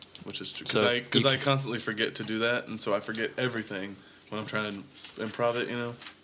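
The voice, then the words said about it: Deep, raspy sick voice. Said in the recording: “my deepened, sick voice. ... Your raspy voice.”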